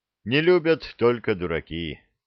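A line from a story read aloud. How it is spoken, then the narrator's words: Young man snorting. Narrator (Russian): хмыкнул юноша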